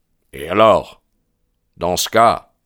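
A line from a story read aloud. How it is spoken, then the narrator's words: Snarling reply. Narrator (French): répondit MacMurdo d'un ton hargneux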